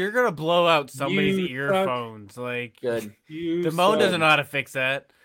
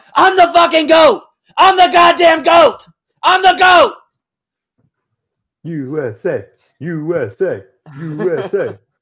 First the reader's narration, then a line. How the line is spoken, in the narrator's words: he screams out